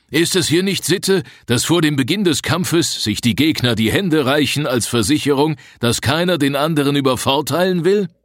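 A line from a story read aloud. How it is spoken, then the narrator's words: Father speaking loudly. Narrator (German): sagte ihr Vater mit lauter Stimme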